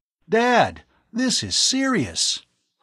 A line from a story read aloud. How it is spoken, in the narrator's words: Tom exclaimed